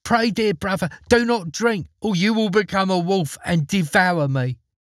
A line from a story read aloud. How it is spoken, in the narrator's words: The sister cried out